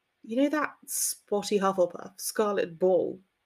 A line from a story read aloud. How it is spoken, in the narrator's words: he sighed